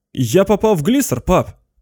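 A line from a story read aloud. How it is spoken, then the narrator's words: Shout. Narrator (Russian): крикнул он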